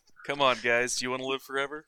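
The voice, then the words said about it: Calm, monotone delivery. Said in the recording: “You're all calm and monotone about it.”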